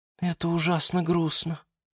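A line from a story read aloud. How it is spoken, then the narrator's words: Quiet speech. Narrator (Russian): тихо сказала герань Антонина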